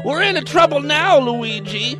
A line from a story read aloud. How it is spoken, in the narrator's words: wailed Mario